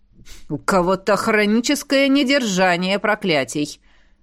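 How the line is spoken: Wry snort. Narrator (Russian): хмыкнул Ингвард

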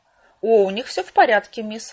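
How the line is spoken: Cheerful. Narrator (Russian): радостно сообщил Брикс

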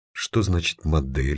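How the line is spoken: Plain. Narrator (Russian): спросила Аня

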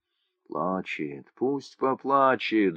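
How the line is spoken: Crowd whispering. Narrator (Russian): зашептали в толпе

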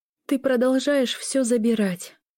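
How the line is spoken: Tired reply. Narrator (Russian): устало ответила Лиля

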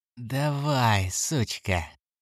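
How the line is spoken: Gleeful laughing. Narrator (Russian): Голос ликующе захохотал

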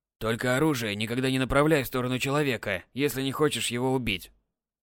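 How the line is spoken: Old man grumbling. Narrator (Russian): Пробурчал дед

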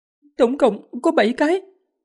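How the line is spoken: Trembling, fearful voice. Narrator (Vietnamese): Thân thể nữ đệ tử rung lên, cố gắng kiềm chế sự sợ hãi, run run nói

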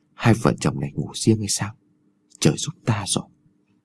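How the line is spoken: Old man whispering. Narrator (Vietnamese): lão thì thào

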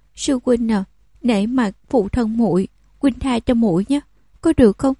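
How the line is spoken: Careful pleading. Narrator (Vietnamese): Nàng ta siết chặt tay áo của hắn, cẩn thận cầu xin

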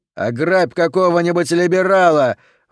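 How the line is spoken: Young man shouting amid laughter. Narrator (Russian): выкрикнул рыхлый юноша под одобрительный хохот окружающих

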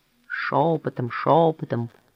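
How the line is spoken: Grumbling. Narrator (Russian): проворчал Мишка

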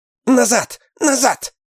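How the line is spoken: Shouting behind door. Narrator (Russian): закричала за дверью Мэг

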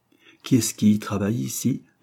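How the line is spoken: Plain question. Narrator (French): demanda Jane

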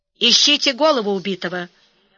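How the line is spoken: Stern command. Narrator (Russian): строго сказал полковник

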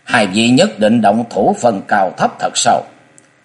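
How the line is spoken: Cold voice. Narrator (Vietnamese): lãnh diện ma quân lạnh lùng nói

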